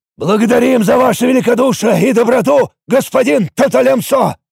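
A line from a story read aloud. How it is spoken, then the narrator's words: Shout, then whole village together. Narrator (Russian): выкрикнул, а затем и вся деревня в едином порыве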